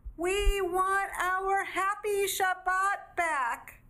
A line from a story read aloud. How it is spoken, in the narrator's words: cried the whole family